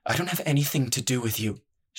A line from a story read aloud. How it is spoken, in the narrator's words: she muttered